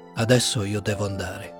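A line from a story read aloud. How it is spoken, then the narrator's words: Dull voice, after pause. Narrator (Italian): rispose dopo un po' con voce opaca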